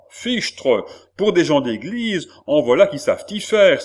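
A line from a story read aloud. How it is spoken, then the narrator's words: Exclaiming. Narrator (French): s'écria le même gentilhomme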